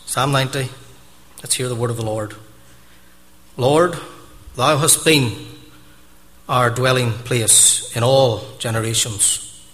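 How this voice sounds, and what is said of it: Foreign accent. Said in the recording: “my foreign accent”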